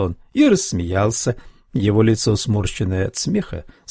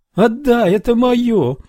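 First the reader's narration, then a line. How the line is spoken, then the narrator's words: Shriek. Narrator (Russian): завопила Марли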